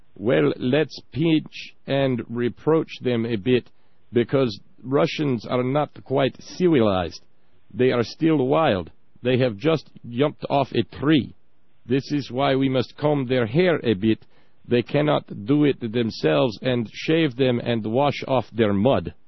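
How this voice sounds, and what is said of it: Put-on Russian accent. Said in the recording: “I don't know about your Russian there.”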